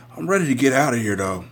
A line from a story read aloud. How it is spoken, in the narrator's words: she said in a raspy tone